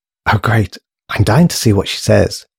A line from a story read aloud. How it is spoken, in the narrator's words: whispered Susan excitedly